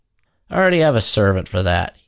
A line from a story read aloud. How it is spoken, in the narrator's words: said gruffly